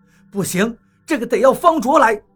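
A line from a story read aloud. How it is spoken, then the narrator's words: Shouting. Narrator (Chinese): 我喊道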